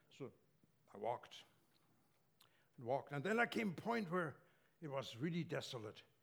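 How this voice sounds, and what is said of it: German accent in English. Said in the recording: “I grew up in Germany, as you probably noticed from my accent.”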